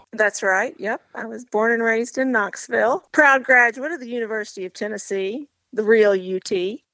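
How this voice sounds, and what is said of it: Slight Southern Tennessee twang. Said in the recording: “You have that little Southern Tennessee twang to your voice.”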